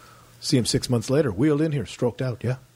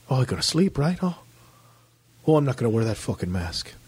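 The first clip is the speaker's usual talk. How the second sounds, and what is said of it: Imitated Irish-sounding Liverpool accent. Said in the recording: “I can't do the accent. Sounds more Irish than anything. I thought he was Irish from Liverpool.”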